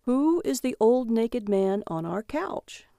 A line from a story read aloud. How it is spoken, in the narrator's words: He said calmly